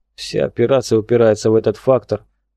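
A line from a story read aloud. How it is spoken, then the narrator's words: Grumble. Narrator (Russian): пробурчал он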